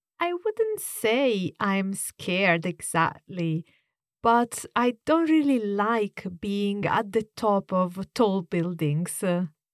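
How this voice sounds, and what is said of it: Italian accent in English. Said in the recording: “is from Italy, so it's a good opportunity to hear a different accent.”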